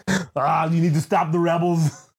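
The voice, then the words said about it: Imitates another person's accented voice. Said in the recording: “Arnold Schwarzenegger ... that accent is hilarious because, like, he doesn't do any fucking covering up of it”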